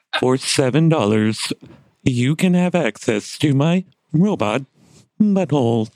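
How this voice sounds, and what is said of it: Robot voice. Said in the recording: “This is my robot voice... That's pretty good.”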